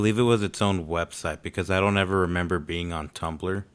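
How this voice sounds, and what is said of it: Usual voice. Nothing is said of it.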